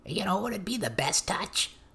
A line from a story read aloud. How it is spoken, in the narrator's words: The smallest, reddest little ugly thing piped up